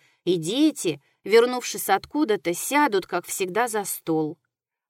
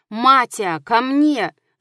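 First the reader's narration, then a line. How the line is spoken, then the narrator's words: Shouted. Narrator (Russian): закричал он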